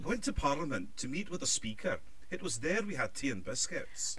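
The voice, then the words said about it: Put-on Scottish accent. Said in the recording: “we'll each do Scottish accent ... you do the Scottish accent and we'll copy ... when I'm doing the Scottish accent”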